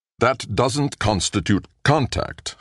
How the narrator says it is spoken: Kossoff said firmly

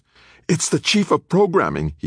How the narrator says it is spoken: yelped, his face flushed

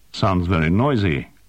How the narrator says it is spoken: Quillen said

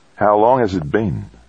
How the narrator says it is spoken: VJ asked

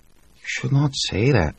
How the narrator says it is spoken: Joanna whispered

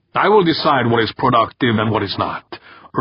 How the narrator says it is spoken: Urbain said sharply

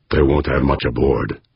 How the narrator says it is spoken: Fuchs muttered back

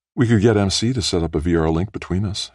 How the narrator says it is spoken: she said quickly, all in a rush

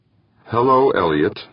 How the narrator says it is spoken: Molina said evenly

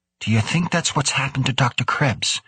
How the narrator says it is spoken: O'Hara asked

